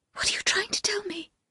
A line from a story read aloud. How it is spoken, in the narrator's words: I whispered